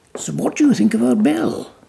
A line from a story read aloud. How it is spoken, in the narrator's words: Baxter said eagerly